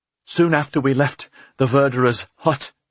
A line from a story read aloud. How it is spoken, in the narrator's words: Agnes panted